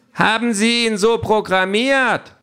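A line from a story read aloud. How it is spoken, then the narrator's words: Woman calling out. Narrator (German): ruft eine andere Abgeordnete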